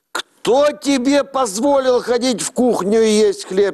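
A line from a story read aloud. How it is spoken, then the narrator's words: Mother shouting angrily. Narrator (Russian): сердито закричала мать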